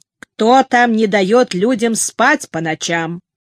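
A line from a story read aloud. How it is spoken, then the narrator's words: Deliberately rough question. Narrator (Russian): нарочито грубо спросил он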